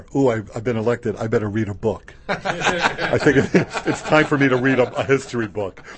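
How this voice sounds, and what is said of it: Imitates another person's voice. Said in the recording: “my impression of the mayor.”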